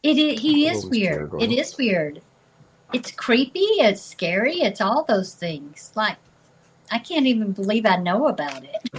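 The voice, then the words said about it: Rural country accent. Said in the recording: “I know I sound like I crawled out of the country, you know, right under a log or something”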